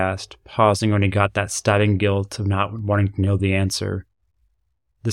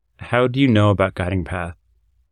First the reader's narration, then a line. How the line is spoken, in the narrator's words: gave a small sigh through his nostrils